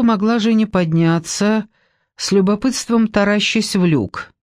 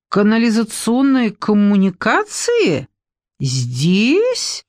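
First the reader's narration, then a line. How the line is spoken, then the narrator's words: Puzzled drawl. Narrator (Russian): протянула в недоумении ее спасительница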